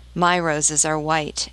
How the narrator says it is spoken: it answered

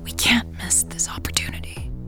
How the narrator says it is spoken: she whispered

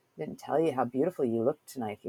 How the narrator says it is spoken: whispered in my ear

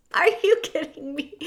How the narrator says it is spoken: Cook laughed

